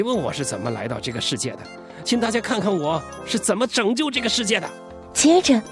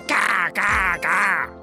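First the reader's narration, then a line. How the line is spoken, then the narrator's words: Pure duck quacking. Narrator (Chinese): 那是绝对的、纯粹的、如假包换的鸭子叫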